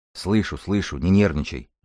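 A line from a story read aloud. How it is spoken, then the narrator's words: Gruff mutter. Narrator (Russian): буркнул хирург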